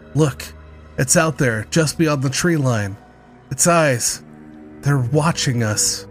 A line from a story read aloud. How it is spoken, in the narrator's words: He gasped